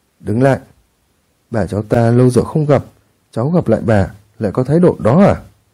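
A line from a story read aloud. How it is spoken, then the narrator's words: Cold voice. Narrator (Vietnamese): Giọng Thủy Linh Lung lạnh lùng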